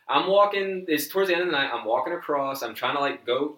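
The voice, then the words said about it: Slips into New York accent. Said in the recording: “I just loved how you said, I'm walking. ... my fucking mouth, like, it gets weird. I think it's my tongue. My tongue gets lazy ... All of a sudden, you have a New York accent.”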